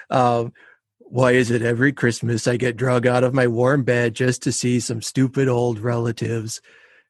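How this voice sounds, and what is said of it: Garfield cartoon cat character voice. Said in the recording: “I don't know if I do a good Garfield impersonation”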